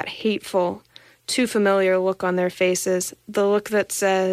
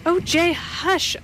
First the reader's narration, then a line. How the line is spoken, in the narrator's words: I begged, struggling to raise myself